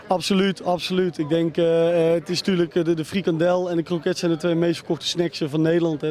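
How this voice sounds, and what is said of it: Breda (Brabant) Dutch regional accent. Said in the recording (Dutch): “ik hoor in jouw accent, jij komt niet uit Amsterdam ... Ik ben geboren en getogen in Breda”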